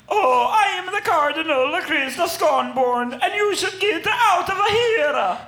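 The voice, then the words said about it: Exaggerated comic Italian accent. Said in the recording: “His Italian accent sits midway between Super Mario and Chef Boyardee.”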